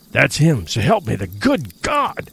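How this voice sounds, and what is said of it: Half-choked whispering cry. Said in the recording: “in a whispering cry, half-choked”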